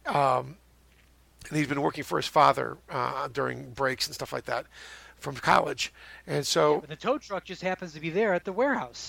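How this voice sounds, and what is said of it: Hoarse, fading voice. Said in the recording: “I'm losing my voice already.”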